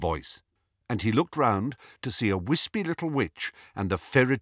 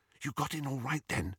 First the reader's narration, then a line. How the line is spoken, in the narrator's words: Hermione whispered